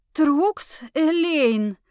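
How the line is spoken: Breathed out. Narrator (Russian): Выдохнула я

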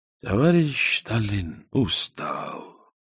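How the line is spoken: Sad agreement. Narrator (Russian): согласился печально

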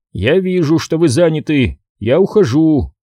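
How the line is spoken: Friendly booming voice. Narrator (Russian): прогудел Ту-Джей дружеским тоном

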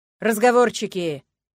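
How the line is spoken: Dean barking. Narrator (Russian): рявкнул декан

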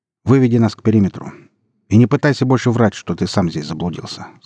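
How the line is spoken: Plain. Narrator (Russian): сказал ему военнослужащий

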